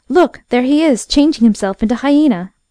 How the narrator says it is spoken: one of his men exclaimed

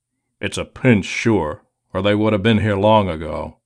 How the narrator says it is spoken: he grumbled

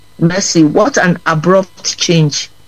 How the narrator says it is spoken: said Mercy

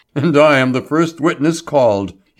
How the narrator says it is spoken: he chuckled

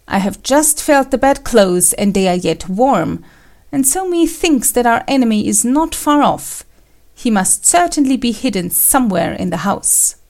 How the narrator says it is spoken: Kuranosuke exclaimed

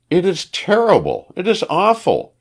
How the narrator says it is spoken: she cried

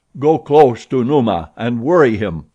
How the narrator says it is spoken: said Tarzan

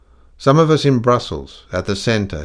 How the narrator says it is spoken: he said hastily

